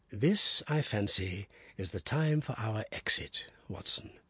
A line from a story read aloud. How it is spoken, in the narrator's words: said Holmes in a whisper